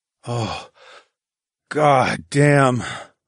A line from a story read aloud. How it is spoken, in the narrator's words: I groaned